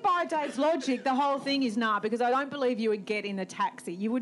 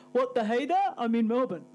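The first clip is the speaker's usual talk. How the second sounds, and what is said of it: Imitates another person's voice. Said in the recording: “Good impression of me”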